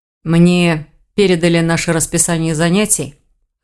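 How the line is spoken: Wry grunt. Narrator (Russian): хмыкнул Рейн

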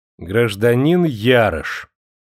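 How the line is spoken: Exaggeratedly stern. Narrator (Russian): Строго, даже преувеличенно строго, начал Сергеев

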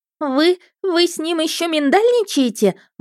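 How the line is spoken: Shrill squeal. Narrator (Russian): взвизгнула Ларисель

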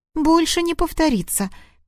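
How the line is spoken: Squeak. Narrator (Russian): пискнула Ангелина

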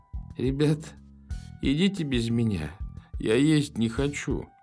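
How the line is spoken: Faint, choking. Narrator (Russian): выдавил он умирающим голосом, давясь от спазмов

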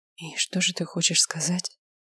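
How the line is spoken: Whisper. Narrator (Russian): прошептала Лера

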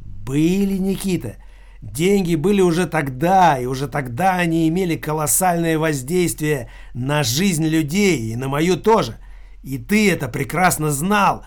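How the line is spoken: Hissing. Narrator (Russian): прошипел Филипп

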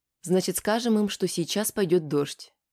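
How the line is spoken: Calm. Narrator (Russian): спокойно ответила Аня

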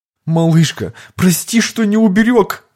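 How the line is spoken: Sobbing. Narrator (Russian): разрыдался человек

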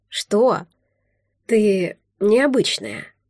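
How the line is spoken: Mysterious. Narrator (Russian): загадочно произнес младший Вересков

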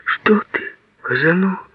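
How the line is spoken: Tender, pitying whisper. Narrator (Russian): нежно прошептала она, пронзенная жалостью

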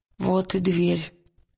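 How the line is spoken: Hoarse, tense voice. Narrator (Russian): хриплым напряженным голосом сказал Уилл

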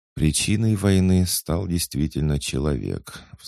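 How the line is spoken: Sighing. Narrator (Russian): вздохнул служитель Фола

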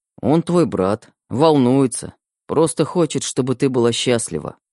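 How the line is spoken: Sighed. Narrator (Russian): вздохнул Костя

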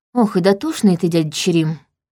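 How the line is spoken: Sighed. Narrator (Russian): вздохнула я

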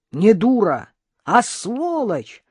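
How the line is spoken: Yelling. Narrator (Russian): заорала Карина

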